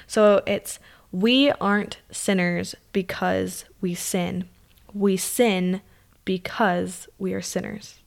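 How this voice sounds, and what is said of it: Slow, deliberate teacher voice. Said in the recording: “I'm going to say slowly ... My teacher voice.”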